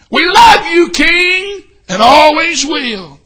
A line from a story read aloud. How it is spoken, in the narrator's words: the streets were lined with folks shouting